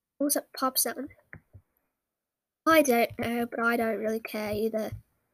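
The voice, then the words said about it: Put-on British accent. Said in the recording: “Sorry about the British accent, people ... I love to pretend to have a British accent”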